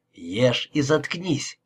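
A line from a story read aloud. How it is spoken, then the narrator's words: Hiss. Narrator (Russian): прошипел он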